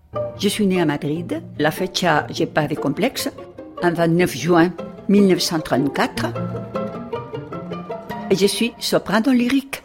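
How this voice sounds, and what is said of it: Spanish accent speaking French. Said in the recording (French): “je le dis avec l'accent espagnol”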